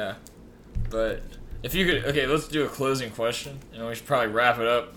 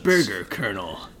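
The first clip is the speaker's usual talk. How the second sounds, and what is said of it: Imitates Solid Snake's voice. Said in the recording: “That's my Snake impression.”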